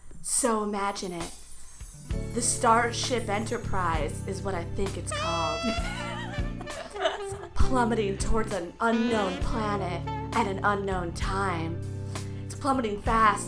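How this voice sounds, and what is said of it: Sultry, seductive voice. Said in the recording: “Turn on your sexy voice. ... Just in a sexy way though. So sexy.”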